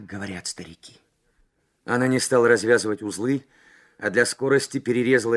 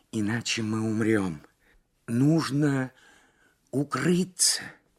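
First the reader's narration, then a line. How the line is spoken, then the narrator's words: Strained whisper. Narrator (Russian): с трудом прошептала Лабискви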